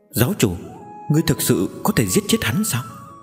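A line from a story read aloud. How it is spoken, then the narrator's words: Soft speech. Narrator (Vietnamese): Giang Mễu khẽ nói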